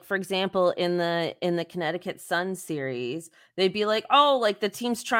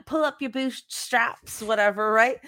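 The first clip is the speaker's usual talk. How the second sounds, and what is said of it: Weak put-on Australian accent. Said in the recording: “best Australian accent ... I'm so glad that you attempted an Australian accent ... that was not even a full attempt ... very bad at Australian accents”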